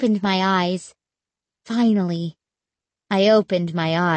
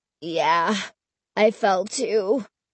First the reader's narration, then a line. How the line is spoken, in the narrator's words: he groaned